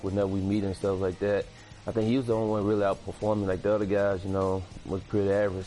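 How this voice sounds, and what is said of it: Thick Southern accent. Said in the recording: “Have a nice, thick Southern accent.”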